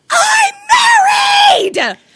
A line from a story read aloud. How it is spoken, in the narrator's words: screams